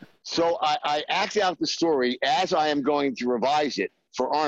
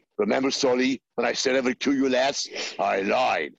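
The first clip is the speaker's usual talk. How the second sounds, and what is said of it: Arnold Schwarzenegger impression. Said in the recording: “I slipped into my cocktail party Arnold impression.”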